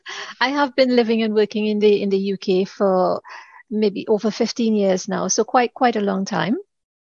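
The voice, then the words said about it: Trinidadian Caribbean accent. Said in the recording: “you would hear a bit of a twang in my accent. I am originally from the Caribbean, Trinidad to be exact.”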